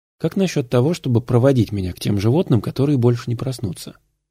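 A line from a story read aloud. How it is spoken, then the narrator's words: Plain. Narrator (Russian): спросил Уолтер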